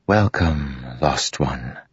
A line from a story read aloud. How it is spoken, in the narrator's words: Witt whispered